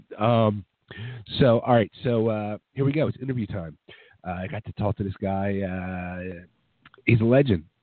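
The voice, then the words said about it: Sick-sounding voice. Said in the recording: “As you can tell, I am sick and my voice is just, I'm sick.”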